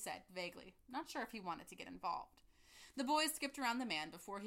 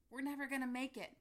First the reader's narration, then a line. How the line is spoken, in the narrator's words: panted Ziploc, plum sauce dribbling down his chin